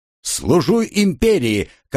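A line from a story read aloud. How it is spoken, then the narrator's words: Dutiful shout. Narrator (Russian): как положено, выкрикнул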